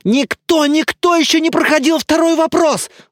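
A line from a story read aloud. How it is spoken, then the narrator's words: Yelling. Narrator (Russian): завопила лысая голова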